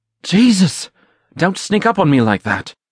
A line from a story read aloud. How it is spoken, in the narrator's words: Gerard anxiously cried out